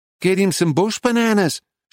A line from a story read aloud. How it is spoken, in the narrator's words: shouted back